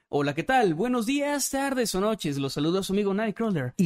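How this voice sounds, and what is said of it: Announcer-style narrator voice. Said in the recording (Spanish): “voz de narrador”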